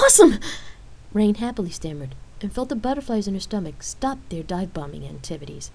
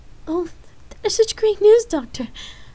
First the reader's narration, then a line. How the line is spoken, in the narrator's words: Lark tearfully replied